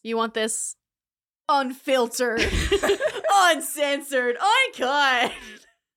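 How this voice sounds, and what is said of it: Radio announcer voice. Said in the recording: “That's my radio voice.”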